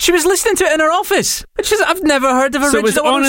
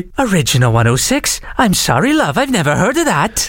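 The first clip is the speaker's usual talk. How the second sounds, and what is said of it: Put-on Welsh accent. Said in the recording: “she's Welsh. I'm going to try the accent.”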